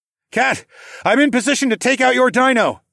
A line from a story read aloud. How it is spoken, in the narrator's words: I hollered into the device